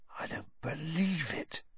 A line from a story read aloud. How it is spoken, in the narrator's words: he said hoarsely